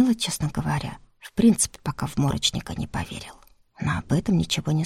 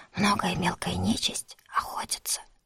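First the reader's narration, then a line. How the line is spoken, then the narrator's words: Continued whispering. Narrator (Russian): шепотом же продолжил Игорек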